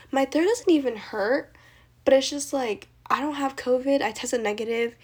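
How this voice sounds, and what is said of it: Quiet, half-gone breathy voice. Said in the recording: “my voice is like half gone, no idea where it went, and now I sound like an ASMR channel... this is like the highest my voice can actually go and like the loudest I can speak”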